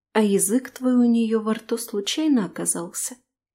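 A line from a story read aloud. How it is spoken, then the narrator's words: Quiet question. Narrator (Russian): Тихо спрашиваю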